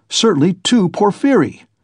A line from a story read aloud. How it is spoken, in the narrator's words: Razumihin shouted in extraordinary excitement